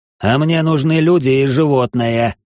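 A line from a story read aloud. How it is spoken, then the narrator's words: Strained wheeze. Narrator (Russian): Прохрипел я через силу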